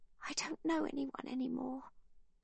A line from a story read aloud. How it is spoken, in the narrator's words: Ava tells them in her quiet voice